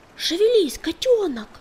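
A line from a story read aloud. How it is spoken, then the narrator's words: Shouting. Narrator (Russian): кричал он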